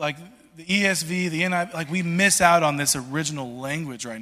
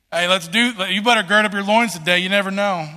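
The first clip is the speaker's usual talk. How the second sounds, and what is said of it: Put-on country accent. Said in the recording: “I don't know why I'm saying it with a country accent.”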